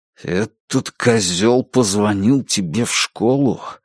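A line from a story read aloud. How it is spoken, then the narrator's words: Grating whisper. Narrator (Russian): прошептал, вернее, проскрежетал в ответ Джейк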